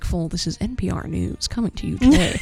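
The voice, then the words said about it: Formal NPR radio announcer voice. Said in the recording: “talking like an NPR spokesperson”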